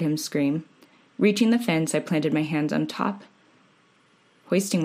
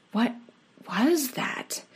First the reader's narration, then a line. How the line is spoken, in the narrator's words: I managed to say in a panic whisper